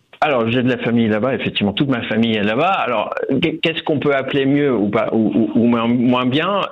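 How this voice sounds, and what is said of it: Slight Dutch accent in French. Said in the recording (French): “vous avez une pointe d'accent. ... Je viens des Pays-Bas”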